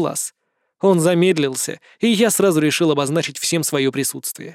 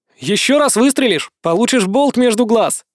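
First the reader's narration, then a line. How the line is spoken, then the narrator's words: Shouted. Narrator (Russian): прокричал я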